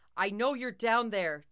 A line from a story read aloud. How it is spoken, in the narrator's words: Jock shouted with Grandpa's voice